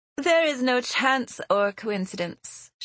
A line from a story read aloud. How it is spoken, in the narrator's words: she answered haughtily